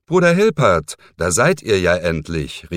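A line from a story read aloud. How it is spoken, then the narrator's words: Call. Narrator (German): rief ihm Alcuin zu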